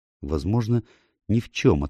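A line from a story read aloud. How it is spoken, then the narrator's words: Uncertain reply. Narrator (Russian): ответила она, но как-то неуверенно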